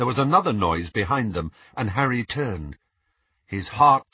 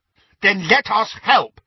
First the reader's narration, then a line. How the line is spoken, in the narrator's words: said Neville angrily